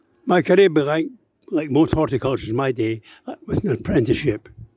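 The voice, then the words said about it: Scottish Glasgow accent. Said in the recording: “you probably gather from the accent, slightly north of the border, in Glasgow”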